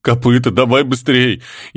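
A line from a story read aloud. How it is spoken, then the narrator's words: Near tears. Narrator (Russian): Едва не разрыдался контейнер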